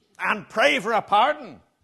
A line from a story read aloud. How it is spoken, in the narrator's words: snapped